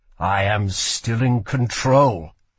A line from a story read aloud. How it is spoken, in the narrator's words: said Kel through gritted teeth